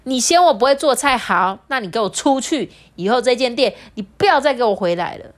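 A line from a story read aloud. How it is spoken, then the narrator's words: Furious, fed up. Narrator (Chinese): 他真的没有办法忍受哎，他就怒气冲冲指着大门说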